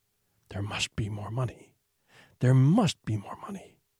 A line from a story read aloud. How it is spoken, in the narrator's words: a voice would start whispering